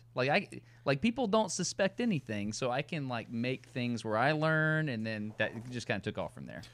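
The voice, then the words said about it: Southern American accent. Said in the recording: “when you have a Southern accent, you can't get away from it ever”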